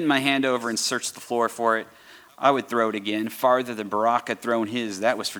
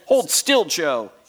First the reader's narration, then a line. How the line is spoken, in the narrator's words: he shouted